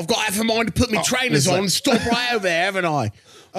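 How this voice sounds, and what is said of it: Poor put-on British accent. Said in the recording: “do an accent better than most of us ... And it's still real bad ... When I try to do a British accent”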